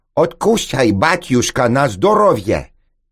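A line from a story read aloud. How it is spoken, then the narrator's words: Young woman, loud and sharp. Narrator (Russian): громко и резко произнесла молодая сомалийка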